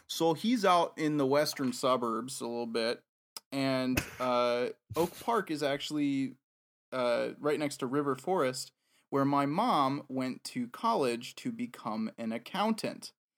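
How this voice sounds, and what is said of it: Chicago accent. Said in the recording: “I'm slipping into the Chicago accent here”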